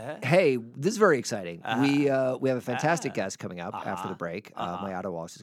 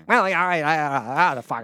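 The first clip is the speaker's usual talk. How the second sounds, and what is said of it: Poor Regis Philbin impression. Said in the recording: “terrible Regis Philbin impersonation”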